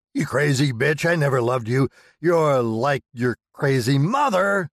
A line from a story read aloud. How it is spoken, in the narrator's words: screaming